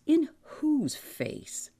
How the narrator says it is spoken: George scoffed

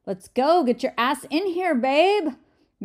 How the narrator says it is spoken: Mimi shouted

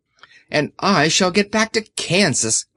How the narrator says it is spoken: cried Dorothy

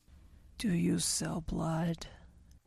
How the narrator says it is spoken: it asked in a raspy voice

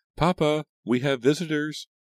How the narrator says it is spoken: hurried excitedly into the house, calling

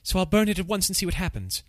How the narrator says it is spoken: he exclaimed

